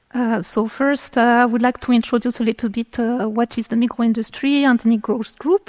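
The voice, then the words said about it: French-speaking Swiss accent in English. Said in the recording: “as you can guess from my accent, I'm coming from the French part of Switzerland”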